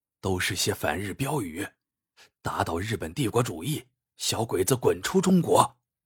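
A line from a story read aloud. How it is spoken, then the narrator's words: Low hushed voice. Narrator (Chinese): 路人压低声音说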